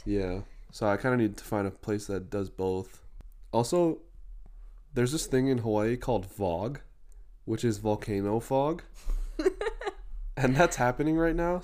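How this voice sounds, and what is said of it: Husky, congested voice. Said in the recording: “my voice sounds a little sexier than normal, it's because I'm having some mucus from the VOG”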